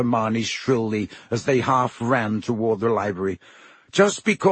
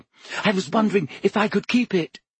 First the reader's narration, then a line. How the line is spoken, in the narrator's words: she said breathlessly